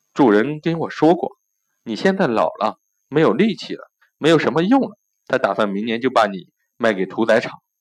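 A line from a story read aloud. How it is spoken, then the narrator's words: Low, mysterious voice. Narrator (Chinese): 小花猫压低声音神秘的说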